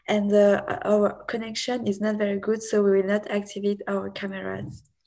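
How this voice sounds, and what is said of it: Non-native English accent. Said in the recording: “we are sorry for our accent.”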